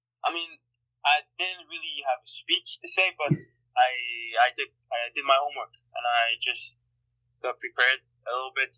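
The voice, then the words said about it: Slight Montreal French accent. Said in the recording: “I can hear a little bit of your Montreal accent”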